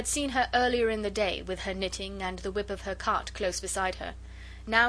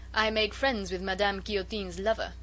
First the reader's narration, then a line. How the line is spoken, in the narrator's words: she said with a coarse laugh